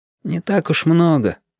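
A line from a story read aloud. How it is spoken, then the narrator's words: Sigh. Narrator (Russian): вздохнул Яшка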